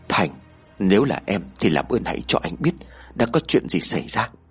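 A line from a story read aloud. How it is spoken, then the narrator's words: Soft whisper. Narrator (Vietnamese): Cậu khẽ thì thầm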